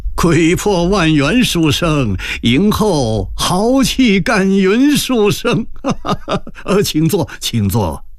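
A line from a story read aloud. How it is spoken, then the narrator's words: Laughing. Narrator (Chinese): 一边让座一边笑道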